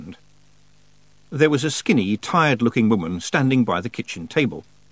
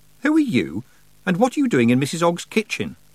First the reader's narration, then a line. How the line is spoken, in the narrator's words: Tiffany said sharply